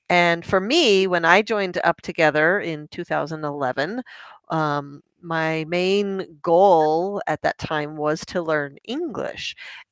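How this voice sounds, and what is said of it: Spanish accent in English. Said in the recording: “I still have my Spanish accent.”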